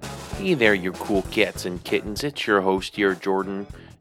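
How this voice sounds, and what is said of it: Put-on Wisconsin accent. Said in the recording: “I got to get rid of that Wisconsin accent. I've been channeling it”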